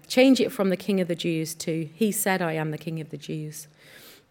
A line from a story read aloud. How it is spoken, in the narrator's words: Pilate replied